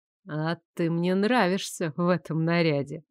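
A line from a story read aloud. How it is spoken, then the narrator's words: Purring. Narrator (Russian): мурлыкнул Лоренс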